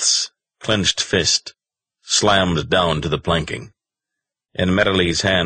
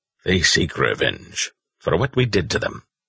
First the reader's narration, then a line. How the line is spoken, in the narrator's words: said Petrel, his voice grim